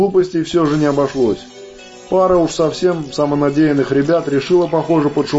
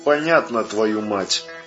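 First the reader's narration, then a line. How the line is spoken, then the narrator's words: Angry hiss through earpiece. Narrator (Russian): Шипит наушник злым голосом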